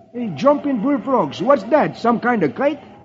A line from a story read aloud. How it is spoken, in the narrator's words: Beetle exclaims